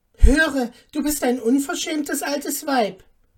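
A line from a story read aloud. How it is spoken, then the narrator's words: Annoyed call. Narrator (German): rief er unmutig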